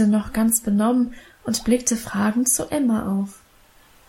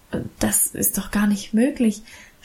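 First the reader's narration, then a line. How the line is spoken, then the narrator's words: Overwhelmed stammering. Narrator (German): stammelte überwältigt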